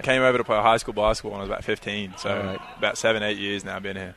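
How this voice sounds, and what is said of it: Australian accent, somewhat faded. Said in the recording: “You're from Australia... I'm trying my best to keep the accent... I'm losing it... other people with Australian accents... When people hear that accent... I get a lot of British and other places too”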